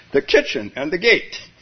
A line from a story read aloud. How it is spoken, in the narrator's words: Hearing no reply, he exclaimed